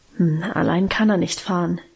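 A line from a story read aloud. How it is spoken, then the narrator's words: Murmured. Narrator (German): murmelte sie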